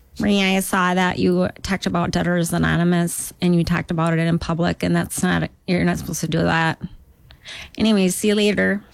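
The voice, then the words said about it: Put-on Duluth, Minnesota accent. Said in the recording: “unless I've grown up with the accent, like, oh, I can do that accent ... I can do a Duluth because that's where I'm from”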